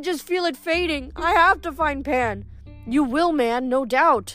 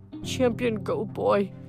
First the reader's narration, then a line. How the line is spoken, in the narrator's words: he muttered dejectedly